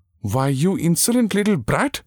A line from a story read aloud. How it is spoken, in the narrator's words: exclaimed Kundavai without heat